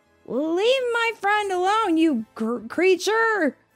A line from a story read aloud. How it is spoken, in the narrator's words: Bart shouted